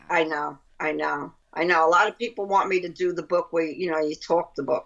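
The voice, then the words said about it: Brooklyn accent. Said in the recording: “That's my Brooklyn accent.”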